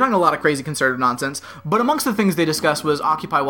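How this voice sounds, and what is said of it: Usual voice. Nothing is said of it.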